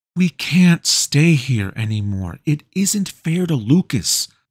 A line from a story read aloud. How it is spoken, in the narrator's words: pleaded Valerie